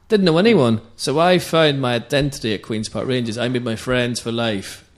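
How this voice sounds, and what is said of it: Belfast Northern Irish accent. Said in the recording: “I came to London from Belfast. Not that you'd ever guess by the accent.”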